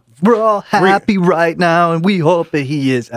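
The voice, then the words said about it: Imitates another person's voice. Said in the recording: “my Corey Taylor impersonation ... That's pretty awful.”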